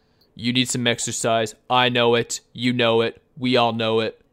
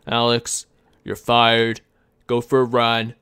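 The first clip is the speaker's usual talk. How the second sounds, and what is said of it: Imitates another person's voice. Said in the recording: “I should really work on my Trump impression... It wasn't half bad.”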